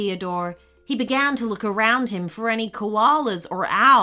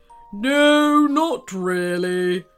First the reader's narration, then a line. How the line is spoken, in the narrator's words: came a very deep, rumbling voice